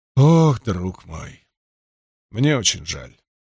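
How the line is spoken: Flustered sigh. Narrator (Russian): растерянно вздохнул Аристид

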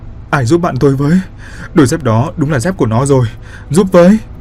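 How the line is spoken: Crying, sobbing. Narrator (Vietnamese): Bột vừa khóc lóc

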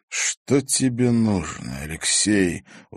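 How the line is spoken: Tired question. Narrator (Russian): устало спросил Зверев

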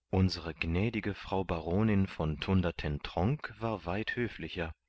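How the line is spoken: Plain. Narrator (German): sagte Candide

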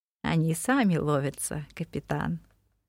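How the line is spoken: Gentle reply. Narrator (Russian): мягко ответил Вормак

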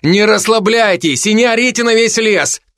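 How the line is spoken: Shout. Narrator (Russian): крикнул я

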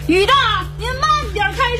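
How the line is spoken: Shouting in the rain. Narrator (Chinese): 王大磊站在大雨中对师傅喊着

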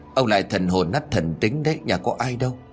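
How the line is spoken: Old woman muttering. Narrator (Vietnamese): Bà lẩm bẩm

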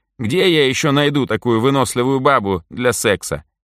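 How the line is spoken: Blurted confession. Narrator (Russian): не выдержав, признался Митька

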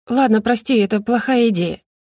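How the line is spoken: Sighing. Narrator (Russian): вздохнула она

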